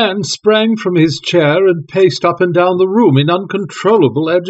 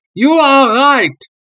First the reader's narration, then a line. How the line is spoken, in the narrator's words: he cried